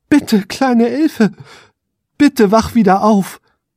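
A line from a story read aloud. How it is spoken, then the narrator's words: Desperate pleading. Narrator (German): flehte er verzweifelt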